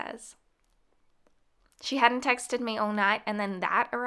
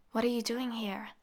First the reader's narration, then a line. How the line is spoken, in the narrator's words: I whispered